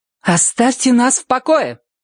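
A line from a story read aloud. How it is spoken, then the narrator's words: Loud, confident. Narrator (Russian): громко и уверенно сказала дверь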